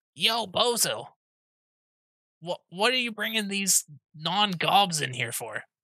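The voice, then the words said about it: Goblin character voice. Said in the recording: “they all have the goblin voice”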